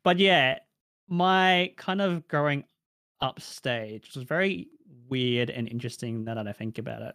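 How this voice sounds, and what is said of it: Australian accent. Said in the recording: “I don't have a Filipino accent. I have an Australian accent.”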